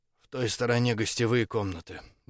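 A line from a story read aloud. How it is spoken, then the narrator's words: Flat colorless voice. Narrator (Russian): бесцветным голосом комментировала декан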